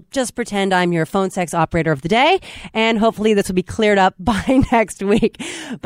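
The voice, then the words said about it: Rough, more nasal voice. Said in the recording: “My voice is a little nastier than usual ... my apologies if I sound a little more nasal than usual”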